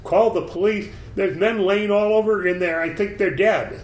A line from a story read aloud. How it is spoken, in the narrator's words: screamed